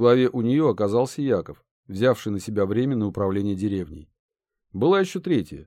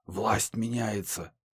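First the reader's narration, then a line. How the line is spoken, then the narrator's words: Hissed under breath. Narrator (Russian): Вторая, маленькая, но вооруженная, в полголоса шипела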